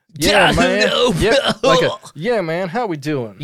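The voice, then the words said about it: Dim-sounding Southern drawl impression. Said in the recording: “he sounds a little dumber and more Southern. He puts on a Southern affect.”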